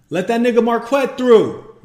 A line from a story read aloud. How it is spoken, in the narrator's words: Maurice bellows